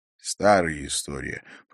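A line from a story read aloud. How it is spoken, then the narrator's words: Muttered through teeth. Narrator (Russian): процедил Харри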